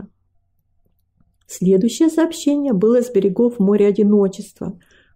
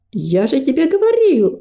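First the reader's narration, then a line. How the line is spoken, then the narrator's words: Exclamation. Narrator (Russian): воскликнул гордость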